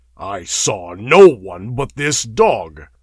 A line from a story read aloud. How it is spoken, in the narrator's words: growled Conan